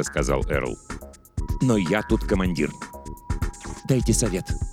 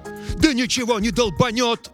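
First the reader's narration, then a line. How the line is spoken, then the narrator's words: Yelled. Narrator (Russian): заорал Эрл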